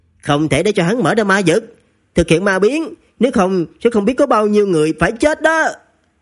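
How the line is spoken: Loud voice. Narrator (Vietnamese): Đỗ Dị Nhiên lớn tiếng nói

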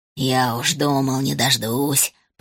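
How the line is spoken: Grumble. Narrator (Russian): проворчал Гус

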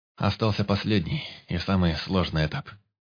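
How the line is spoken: Calm, even voice. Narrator (Russian): проговорил Алекс тем же спокойным и ровным голосом

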